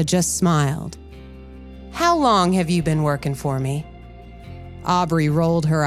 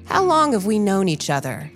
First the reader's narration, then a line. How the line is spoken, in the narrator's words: Clarissa asked